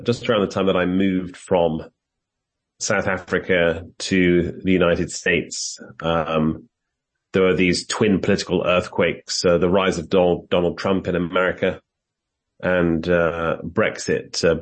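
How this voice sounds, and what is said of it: British accent. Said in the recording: “as you can tell from my accent, I am British”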